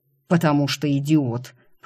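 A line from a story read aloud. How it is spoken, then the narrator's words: Growled. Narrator (Russian): прорычал Рик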